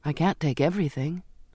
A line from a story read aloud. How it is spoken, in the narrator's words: I said